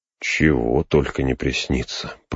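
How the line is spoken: Muttered. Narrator (Russian): пробормотал он

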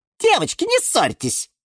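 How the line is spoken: Squeak. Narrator (Russian): пискнула она

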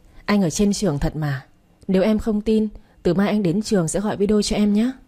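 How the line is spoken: Laughing interruption. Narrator (Vietnamese): Thành đã bật cười cắt ngang

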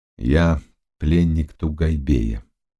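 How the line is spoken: Plain. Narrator (Russian): ответил пан Стефан

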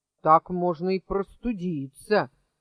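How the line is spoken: Displeased grumble. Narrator (Russian): недовольно буркнул Абдул-Надул

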